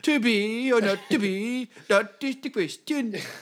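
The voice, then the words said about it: Poor put-on Danish accent. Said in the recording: “you should do it in a Danish accent ... I don't even think that's a good Danish accent.”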